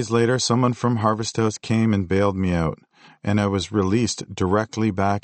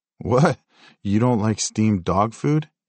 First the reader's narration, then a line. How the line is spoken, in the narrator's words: he laughed